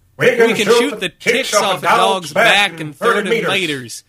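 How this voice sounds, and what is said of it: Put-on Southern accent. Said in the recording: “let's say that in a southern accent.”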